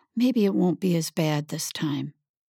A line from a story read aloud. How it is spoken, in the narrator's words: He whispered in her ear